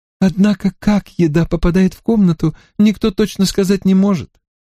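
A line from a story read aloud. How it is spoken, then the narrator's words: Exclamation. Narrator (Russian): воскликнула мисс Грейстил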